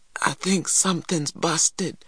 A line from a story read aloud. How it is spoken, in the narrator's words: he gasped finally